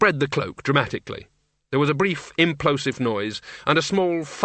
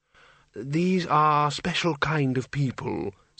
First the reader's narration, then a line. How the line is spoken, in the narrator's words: said Windle gently